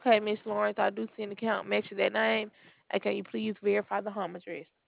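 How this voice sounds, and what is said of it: Strong noticeable accent. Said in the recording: “You've got quite an accent there.”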